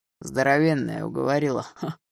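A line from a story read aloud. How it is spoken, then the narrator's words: Chuckling. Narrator (Russian): хохотнул он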